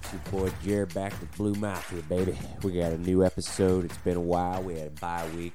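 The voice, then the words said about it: Rough, sick-sounding voice. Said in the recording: “We had a little bit of a sickness. ... Forgive me if my voice sounds a little shitty.”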